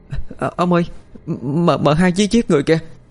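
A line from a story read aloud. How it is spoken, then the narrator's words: Terrified stammering. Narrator (Vietnamese): Con mén sợ xanh mặt, lắp bắp nói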